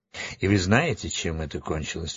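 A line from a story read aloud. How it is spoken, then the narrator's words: Calm. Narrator (Russian): спокойно сказал Урфин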